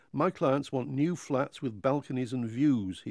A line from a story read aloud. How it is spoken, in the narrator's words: he said